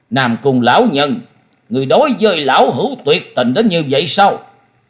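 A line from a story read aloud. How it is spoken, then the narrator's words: Trembling with anger. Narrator (Vietnamese): Hầu tẩu Tào Di tức giận đến toàn thân rung lên bần bật nói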